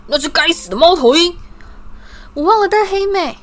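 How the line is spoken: Angry roar. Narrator (Chinese): 威农一丈的怒吼

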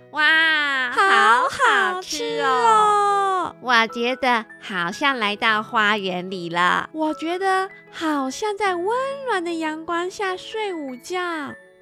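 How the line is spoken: Loud. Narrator (Chinese): 大声地说

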